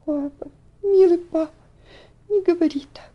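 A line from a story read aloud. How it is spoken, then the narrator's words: Exclaimed, bursting into tears. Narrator (Russian): воскликнула она, разрыдавшись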